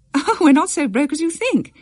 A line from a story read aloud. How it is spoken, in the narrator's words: Betty said, laughing to Constance